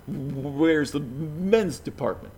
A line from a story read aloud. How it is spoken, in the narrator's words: the man repeats himself with his terrible stutter